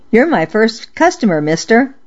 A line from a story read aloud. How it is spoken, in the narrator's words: I blurted